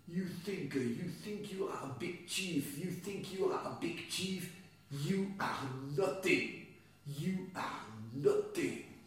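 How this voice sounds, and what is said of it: Heavy French accent. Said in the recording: “with a heavy French accent”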